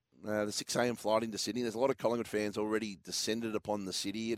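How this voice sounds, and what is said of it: Hoarse, nearly lost voice. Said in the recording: “when did the voice go ... It was battling yesterday ... my voice is gone ... I know it's hard to listen to.”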